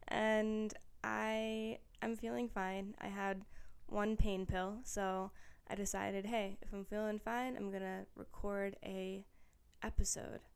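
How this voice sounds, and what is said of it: Raspy, slightly jumbled voice. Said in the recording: “my voice sounds a little weird or raspy or jumbled, it's because I just had my wisdom teeth taken out today”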